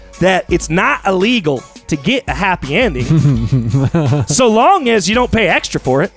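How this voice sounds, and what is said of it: Put-on Southern accent. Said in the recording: “I'm going to drop my Southern accent”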